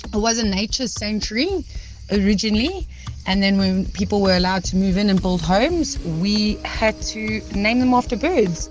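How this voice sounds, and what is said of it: South African accent. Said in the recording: “I would say it's either a Durban or Gauteng accent”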